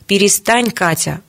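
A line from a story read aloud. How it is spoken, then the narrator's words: Stern. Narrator (Russian): строго остановила младшую сестру Ия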